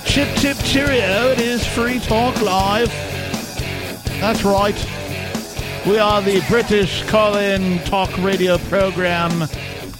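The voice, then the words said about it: Poor put-on British accent. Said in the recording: “doing a horrible Monty Python imitation, and it's going poorly ... My horrible imitation”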